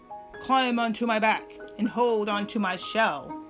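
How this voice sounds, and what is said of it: Deep voice for sea turtle. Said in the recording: “the sea turtle said in his deep voice.”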